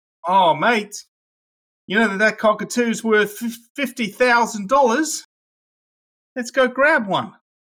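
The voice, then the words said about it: Put-on Australian accent. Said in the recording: “you got a fairly solid Aussie accent ... I can talk Australian with the best of them”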